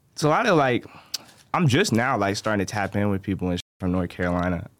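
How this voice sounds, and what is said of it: Hard-to-place Southern-tinged accent. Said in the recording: “you have a mysterious accent. It's it's kind of hard to pick out exactly what's going on with it”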